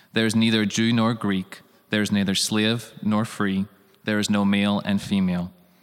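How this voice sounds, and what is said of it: Irish accent. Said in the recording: “Love him when he says faith in that Irish accent.”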